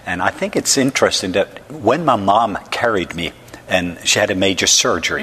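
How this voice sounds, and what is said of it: Norwegian accent. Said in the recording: “they can hear I don't have a southern accent ... I'm from the country of Norway”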